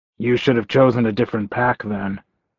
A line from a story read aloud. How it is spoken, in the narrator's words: he said dryly